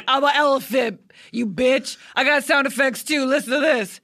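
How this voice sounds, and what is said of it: Impression of shock jock Tom Likas. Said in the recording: “James Adomian was doing his impression of Tom Likas, who is a misogynist Southern California shock jock.”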